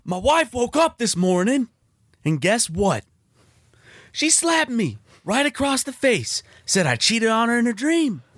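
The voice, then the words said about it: Imperfect blue-collar comedian voice impression. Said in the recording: “That's my Larry the Cable Guy impression. ... The accent was a little not all the way there. ... It's my stage man voice. ... Like the blue collar.”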